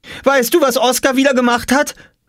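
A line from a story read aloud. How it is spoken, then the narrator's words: Eager call. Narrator (German): rief Jule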